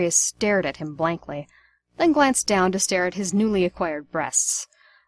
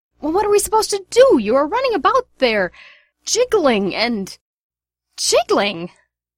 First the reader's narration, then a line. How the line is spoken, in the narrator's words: Sirius shrieked